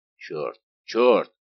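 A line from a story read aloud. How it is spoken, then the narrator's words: Astonished exclamation. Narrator (Russian): воскликнул пораженный Портос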